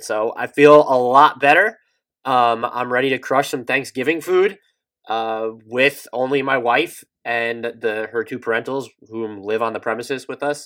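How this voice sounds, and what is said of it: Nasal voice. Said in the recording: “I'm perpetually nasally. My voice is nasally ... you were a little nasally”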